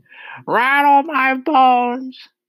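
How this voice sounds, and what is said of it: Spooky parrot voice. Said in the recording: “giving a wonderful imitation of a spooky voice”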